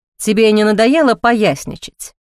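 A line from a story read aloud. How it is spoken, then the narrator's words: Cold question. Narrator (Russian): холодно спросил надзиратель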